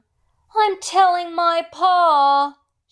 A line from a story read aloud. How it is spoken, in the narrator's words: bellowed, her small frame